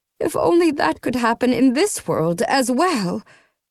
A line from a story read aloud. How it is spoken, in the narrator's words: Jima exclaimed